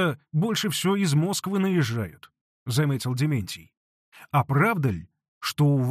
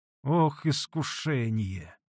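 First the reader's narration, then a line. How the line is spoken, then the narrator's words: Soft murmur. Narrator (Russian): тихонько промолвил Василий Борисович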